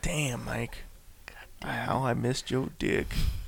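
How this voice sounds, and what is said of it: Deep, husky sensual voice. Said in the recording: “you said that with like a deep voice ... I didn't go that deep. I was like more like a sensual deep. Like, you're like fucking smoker fucking out of 80 years deep”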